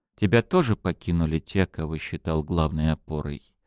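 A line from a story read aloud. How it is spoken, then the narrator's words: Plain question. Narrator (Russian): спросила Фатинья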